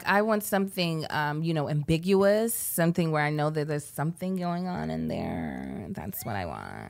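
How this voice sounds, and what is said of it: Imitates a white girl voice. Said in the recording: “It's a white girl voice.”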